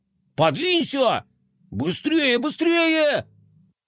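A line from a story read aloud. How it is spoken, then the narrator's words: Overlapping shouts. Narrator (Russian): Наперебой кричали они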